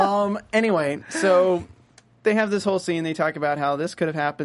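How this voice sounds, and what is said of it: Usual voice. Nothing is said of it.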